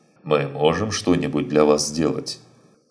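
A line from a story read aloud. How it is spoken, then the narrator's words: Plain. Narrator (Russian): спросил второй мужчина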